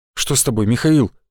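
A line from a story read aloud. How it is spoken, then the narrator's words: Worried question. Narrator (Russian): спросил он обеспокоенным тоном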